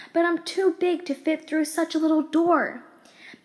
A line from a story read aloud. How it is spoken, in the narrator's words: she cried